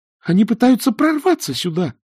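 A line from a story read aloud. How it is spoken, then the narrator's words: Shrill squeal. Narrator (Russian): взвизгнула Эск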